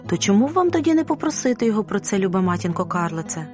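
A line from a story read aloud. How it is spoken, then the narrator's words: Plain. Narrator (Ukrainian): сказала Розалія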